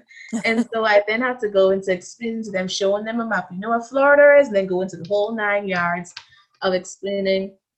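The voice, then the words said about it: Bahamian accent. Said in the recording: “I know I have an accent, but it's not an African accent ... I'm from the Bahamas”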